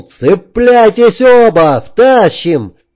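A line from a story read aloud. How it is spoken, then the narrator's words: Shout from above. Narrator (Russian): Сверху Джек крикнул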